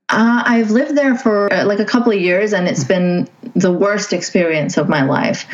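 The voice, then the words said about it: English accent from Saudi Arabia. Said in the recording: “my accent isn't from Canada. It's from Saudi Arabia. This is how I spoke there.”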